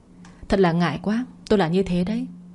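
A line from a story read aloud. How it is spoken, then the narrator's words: Soft smile. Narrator (Vietnamese): Vân Hạ lại khẽ mỉm cười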